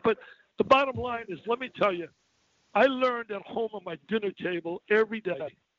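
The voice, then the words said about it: Emotional, choked-up voice. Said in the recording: “I'm a little choked up”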